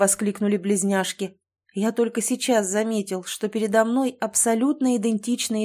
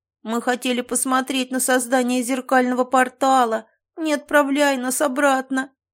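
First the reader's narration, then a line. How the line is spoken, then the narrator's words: Children whining. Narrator (Russian): захныкали мелкие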